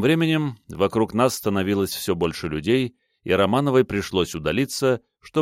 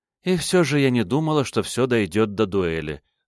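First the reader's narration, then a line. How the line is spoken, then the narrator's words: Sighing. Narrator (Russian): вздохнула она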